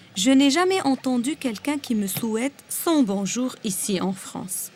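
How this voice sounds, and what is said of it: Lebanese accent with rolled R. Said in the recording (French): “mon accent est surtout dévoilé avec ce R qui, malgré tous mes efforts, me trahit parfois ... mon air continue à rouler”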